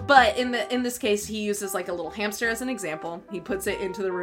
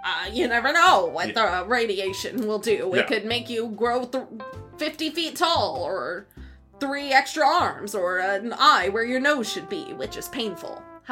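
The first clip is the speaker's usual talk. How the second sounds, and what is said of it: Imitates a cartoon character's voice. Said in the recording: “How was that impression? That was pretty good.”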